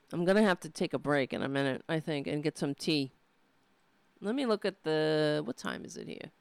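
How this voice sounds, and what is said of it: Hoarse, strained, tired voice. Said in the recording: “As you can hear my voice, I need some tea... I'm losing my voice... I'm screaming... I'm tired”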